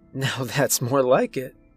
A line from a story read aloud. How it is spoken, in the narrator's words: she giggled